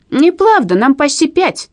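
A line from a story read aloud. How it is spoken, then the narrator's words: Hurt child's shout. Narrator (Russian): обиженно крикнул один из близнецов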